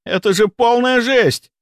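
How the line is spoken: Hysterical shout. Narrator (Russian): истерично выкрикнул он

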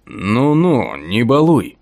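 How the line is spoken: Muffled grumble from darkness. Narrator (Russian): Глухо проворчало из темноты

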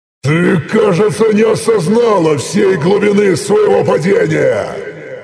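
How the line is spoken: Loud roar. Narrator (Russian): Почти во всю доступную мне мощь прорычал я

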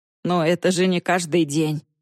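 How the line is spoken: Mutter. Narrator (Russian): пробормотал Корт

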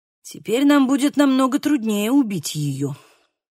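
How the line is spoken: Exhaled words, priest. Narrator (Russian): выдохнул, наконец, священник

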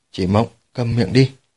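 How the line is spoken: Low stern rebuke. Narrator (Vietnamese): Hạ Thời Vũ thân là thành chủ của Hạ Thành, cũng không khỏi nhíu mày quát khẽ một câu

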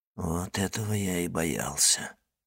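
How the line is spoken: Whisper. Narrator (Russian): прошептал Моррель

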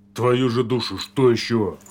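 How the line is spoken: Angry bark. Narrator (Russian): Злобно рявкнул Порфирьев

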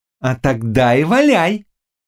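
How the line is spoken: Loud neighing laughter. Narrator (Russian): сказала ведьма и залилась громким хохотом, похожим на ржание кобылы

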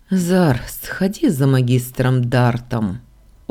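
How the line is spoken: Weary. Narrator (Russian): устало сказал Ардан

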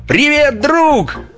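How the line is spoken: Shouted in English, giant. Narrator (Russian): Марсианин ... китайца 15 футов ростом и крикнул по-английски

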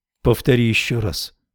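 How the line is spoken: Quiet request. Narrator (Russian): попросила она тихо

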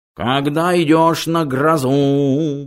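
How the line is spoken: Nasal howling. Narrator (Russian): гнусаво выл он

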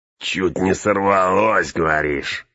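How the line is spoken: Hunchback chuckling. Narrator (Russian): хохотнул горбак

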